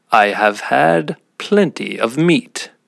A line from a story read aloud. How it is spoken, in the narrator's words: answered he